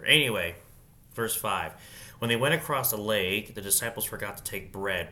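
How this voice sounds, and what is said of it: Congested, stuffy-nosed voice. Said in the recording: “I got my allergies, man... if I sound congested, there you go... breathe through my mouth”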